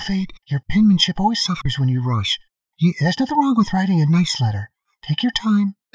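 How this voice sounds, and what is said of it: Put-on motherly character voice. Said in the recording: “Still working on the Fate's mom voice. ... It's just a voice.”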